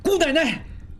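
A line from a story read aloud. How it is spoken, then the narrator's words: Terrified cry. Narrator (Chinese): 应济心魂俱裂，叫道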